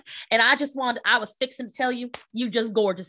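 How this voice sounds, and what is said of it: Put-on Southern accent. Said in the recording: “I love the accent... Now I'm just good at Southern accents.”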